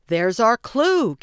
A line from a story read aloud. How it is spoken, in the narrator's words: Gabby shouted